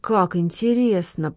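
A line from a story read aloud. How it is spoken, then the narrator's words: Whisper. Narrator (Russian): прошептал маркиз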